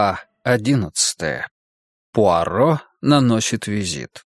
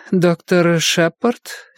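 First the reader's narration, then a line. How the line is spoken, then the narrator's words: Hesitant, uncertain. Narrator (Russian): неуверенно произнесла она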